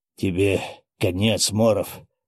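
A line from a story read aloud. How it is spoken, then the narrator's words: Hoarse, strained wheeze. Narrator (Russian): прохрипел вновь, пытаясь подняться маэстро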